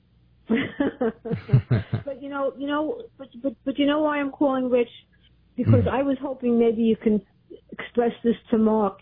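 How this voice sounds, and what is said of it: Brooklyn accent. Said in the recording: “Sounds like you're from Brooklyn... Didn't get that Philly accent”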